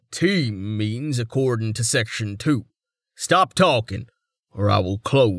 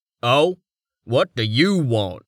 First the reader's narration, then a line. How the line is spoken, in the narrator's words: Barstone snapped